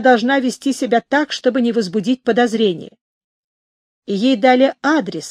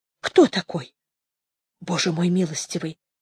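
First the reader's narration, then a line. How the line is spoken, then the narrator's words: Quiet female speech. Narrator (Russian): тихо сказала она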